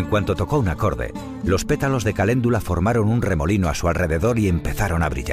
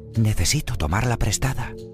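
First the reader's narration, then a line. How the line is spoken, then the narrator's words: Whispered. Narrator (Spanish): susurró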